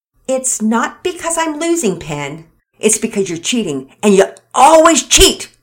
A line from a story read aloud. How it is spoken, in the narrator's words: Pearson shouted